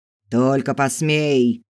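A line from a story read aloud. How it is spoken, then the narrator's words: Growling. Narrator (Russian): рычал Филберт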